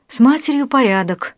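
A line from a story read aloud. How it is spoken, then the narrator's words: Exhaled words. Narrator (Russian): выдохнул Кирилл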